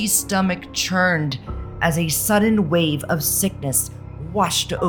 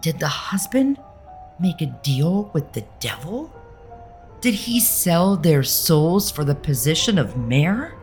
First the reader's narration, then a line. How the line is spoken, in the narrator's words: With a horrified gasp, she whispered